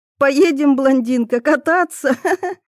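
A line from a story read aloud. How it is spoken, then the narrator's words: Chuckling girl, smiling. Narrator (Russian): Хохотнула девчонка, улыбаясь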